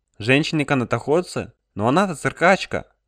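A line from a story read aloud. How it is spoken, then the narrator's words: Sigh. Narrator (Russian): Алекс вздохнул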